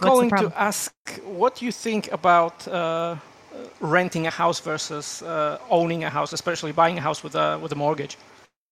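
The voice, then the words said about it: Polish accent in English. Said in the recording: “my awful accent ... Originally, I'm from Poland.”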